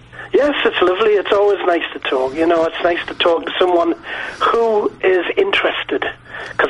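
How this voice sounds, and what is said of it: Geordie accent. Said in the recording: “I've got a Geordie accent”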